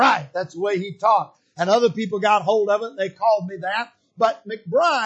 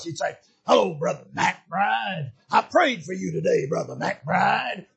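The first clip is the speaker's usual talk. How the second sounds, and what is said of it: Low, gravelly preacher voice. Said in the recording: “He had this real low, gravelly preacher voice.”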